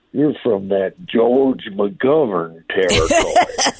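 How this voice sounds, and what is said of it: Put-on Southern US Bubba accent. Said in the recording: “That's a good Bubba accent, by the way. That's a good, you do a good Bubba.”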